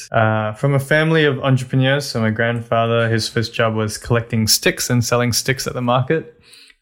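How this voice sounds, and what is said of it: Australian-tinged English accent. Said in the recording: “Australia, which is where the accent's from”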